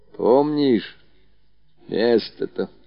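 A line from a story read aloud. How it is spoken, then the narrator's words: Quiet old woman. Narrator (Russian): тихо проговорила бабушка Лукерья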